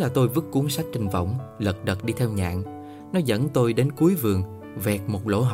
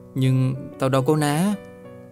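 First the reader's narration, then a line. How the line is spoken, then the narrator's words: Excited then hesitant. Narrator (Vietnamese): Đang hào hứng, tôi bỗng ngập ngừng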